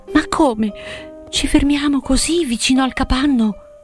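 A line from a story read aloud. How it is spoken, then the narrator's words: Surprised exclamation. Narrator (Italian): Selvaggia aveva esclamato stupita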